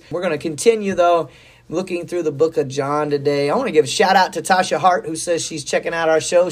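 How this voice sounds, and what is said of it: Hoarse, strained voice. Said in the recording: “I'm a little hoarse. I had some allergies this week ... It's just I've lost my voice.”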